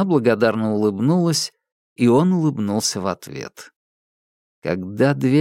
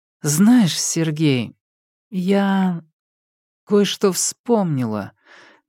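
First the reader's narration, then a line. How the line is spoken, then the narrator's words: Slow, thoughtful. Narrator (Russian): медленно сказала она, хмурясь, будто вспоминая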